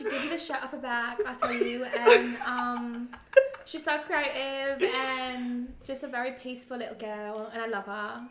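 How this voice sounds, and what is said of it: Put-on British Essex accent. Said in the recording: “Essex. ... In your British accent”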